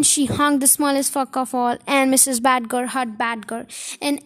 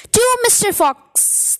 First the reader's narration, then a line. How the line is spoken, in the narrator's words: they all shouted